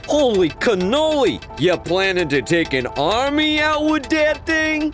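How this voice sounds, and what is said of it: Put-on Italian-American accent. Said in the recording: “in an Italian-American accent again”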